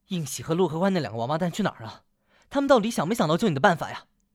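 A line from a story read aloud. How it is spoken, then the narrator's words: Angry. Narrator (Chinese): 白玉楼面露怒色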